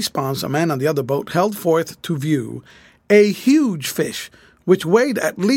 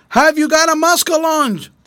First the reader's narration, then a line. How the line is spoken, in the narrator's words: Miss Susie shouted